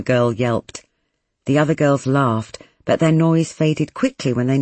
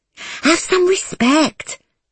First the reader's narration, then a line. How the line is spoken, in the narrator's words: somebody hissed